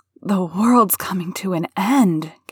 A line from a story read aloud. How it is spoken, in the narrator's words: gasped Martha